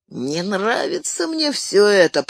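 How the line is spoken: Wheezed from behind. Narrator (Russian): прохрипел позади Сэм

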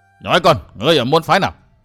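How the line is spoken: Furious roar. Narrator (Vietnamese): Tàn Hồng Sơn chủ tức quá gầm lên

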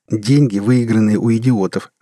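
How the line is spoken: Laughing. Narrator (Russian): засмеялся Теннон

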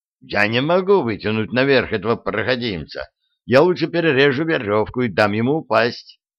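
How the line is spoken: Sudden shout from above. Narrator (Russian): Вдруг сверху чей-то голос прокричал

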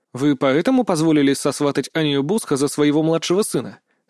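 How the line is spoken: Neutral-toned question. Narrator (Russian): нейтральным тоном поинтересовался я

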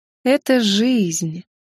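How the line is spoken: Drawn out drawl. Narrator (Russian): протянул вампир

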